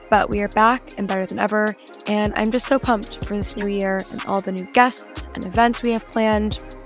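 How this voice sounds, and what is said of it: Slightly congested voice. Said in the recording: “I feel like you can still hear it in my voice a little bit, so apologies if I sound a bit congested”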